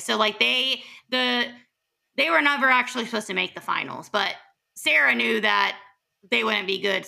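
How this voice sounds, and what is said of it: Raspy voice. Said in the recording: “my voice sounds raspy”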